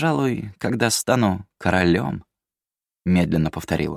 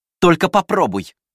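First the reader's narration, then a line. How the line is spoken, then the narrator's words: Barked. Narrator (Russian): рявкнула Атолия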